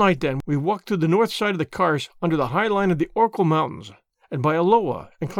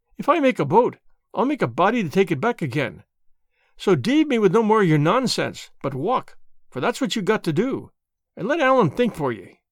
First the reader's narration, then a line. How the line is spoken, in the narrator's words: cried Allan